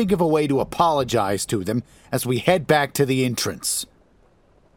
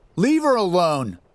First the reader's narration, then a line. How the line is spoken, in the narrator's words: Bryce shouts